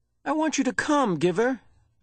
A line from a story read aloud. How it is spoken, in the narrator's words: Jonas pleaded